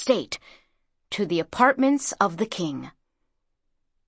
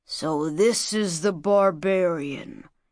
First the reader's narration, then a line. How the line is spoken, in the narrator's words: he growled, letting his scornful gaze travel over her